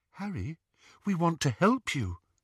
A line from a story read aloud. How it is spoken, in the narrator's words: Luna whispered